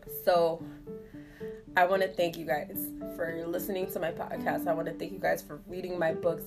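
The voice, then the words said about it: Strained, fading voice. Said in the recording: “my voice is already going out. I'm trying to put a lozenge in.”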